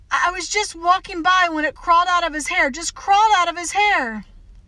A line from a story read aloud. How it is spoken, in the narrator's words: Miss Caroline said desperately